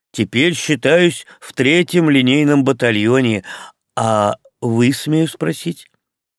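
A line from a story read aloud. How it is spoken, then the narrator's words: Plain. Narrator (Russian): Я сказал ему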